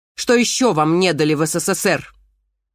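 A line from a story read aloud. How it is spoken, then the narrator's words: Sudden bark. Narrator (Russian): Вдруг рявкнула Панасенко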